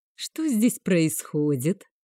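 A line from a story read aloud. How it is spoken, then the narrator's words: Tender question. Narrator (Russian): ласково, словно у любимой спросил герцог у служанки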